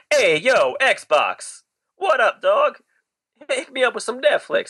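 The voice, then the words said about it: Put-on New Jersey accent. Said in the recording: “If I talk with a New Jersey accent”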